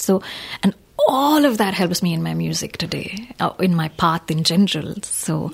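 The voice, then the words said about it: French accent in English. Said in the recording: “she has a French accent in English.”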